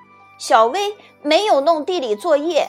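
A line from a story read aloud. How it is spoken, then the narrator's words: Loud announcement. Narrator (Chinese): 他大声宣布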